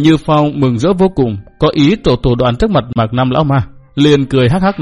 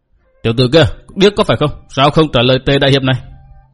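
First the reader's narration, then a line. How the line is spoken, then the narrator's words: Loud shout. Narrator (Vietnamese): Tề Như Phong quát lớn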